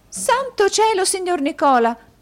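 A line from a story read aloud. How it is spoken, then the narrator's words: Exclaimed. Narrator (Italian): esclamò la signorina Lacrivi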